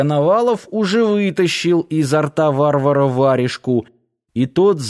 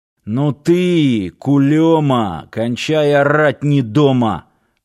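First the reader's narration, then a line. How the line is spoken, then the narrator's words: Growl. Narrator (Russian): рыкнул Сошин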